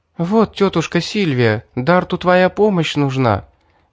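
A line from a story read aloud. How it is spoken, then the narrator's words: Agitated, excited. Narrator (Russian): взволнованно сказала Мирра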